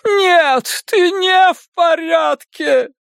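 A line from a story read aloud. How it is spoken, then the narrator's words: Groaning. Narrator (Russian): простонала миссис Касбрэк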